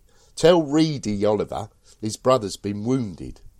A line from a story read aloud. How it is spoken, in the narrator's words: I shouted back to the fellows behind me